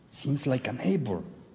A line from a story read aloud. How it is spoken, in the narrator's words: Jimmy whispers